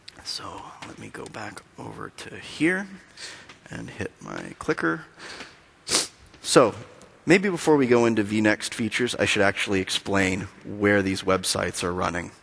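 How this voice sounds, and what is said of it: Weak voice. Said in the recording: “My voice is a little weak today”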